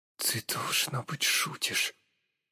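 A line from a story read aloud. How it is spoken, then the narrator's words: Muttering. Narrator (Russian): Пробормотал я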